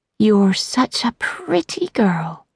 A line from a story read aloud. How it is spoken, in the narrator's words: Gina said gently